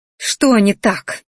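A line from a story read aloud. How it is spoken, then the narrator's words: Angry growl, feeling rejected. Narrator (Russian): рыкнула злобно, чувствуя, что меня опять отвергли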